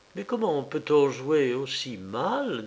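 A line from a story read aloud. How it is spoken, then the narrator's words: Plain. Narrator (French): dit-elle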